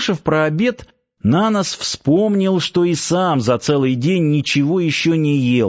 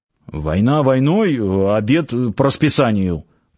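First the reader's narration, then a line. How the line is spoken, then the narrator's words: Man grumbling. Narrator (Russian): пробурчал в ответ мужчина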